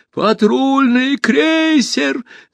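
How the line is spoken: Yelled. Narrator (Russian): завопил узурпатор

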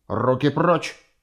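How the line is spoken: Barking snap. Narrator (Russian): Тузик рявкнул

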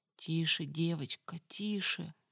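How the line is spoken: Barely audible whimper. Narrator (Russian): еле слышно хныкнула Самара

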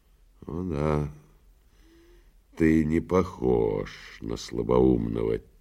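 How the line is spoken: Quiet reply. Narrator (Russian): тихо ответил прокуратор

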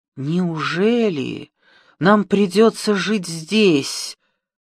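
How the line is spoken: Queen's groan. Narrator (Russian): простонала королева

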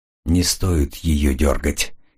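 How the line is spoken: Quiet. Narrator (Russian): тихо проговорил Коридон

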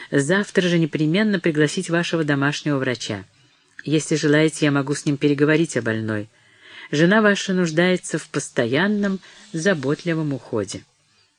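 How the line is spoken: Calm. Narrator (Russian): продолжал доктор спокойно

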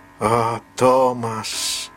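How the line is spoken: Moaned. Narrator (Russian): простонал Чарли

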